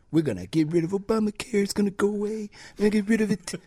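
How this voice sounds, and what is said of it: Imitates another person's voice. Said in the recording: “that's a terrible Trump impression.”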